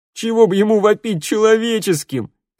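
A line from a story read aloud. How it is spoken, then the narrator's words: Group roaring laughter. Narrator (Russian): захохотали ребята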